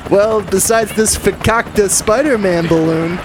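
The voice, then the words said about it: Jewish vampire character voice. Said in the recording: “my Jewish vampire friend”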